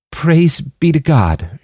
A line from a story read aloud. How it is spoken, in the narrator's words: choked out